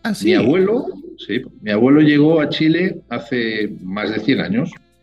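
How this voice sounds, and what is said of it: Speaks Spanish with a foreign accent. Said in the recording (Spanish): “tengo acento, todavía, tengo acento”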